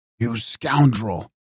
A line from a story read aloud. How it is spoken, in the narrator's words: said Legrand, hissing out the syllables from between his clenched teeth